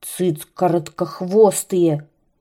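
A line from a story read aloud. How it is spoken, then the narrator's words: Angry grumbling serpent. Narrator (Russian): ворчал змей, сердито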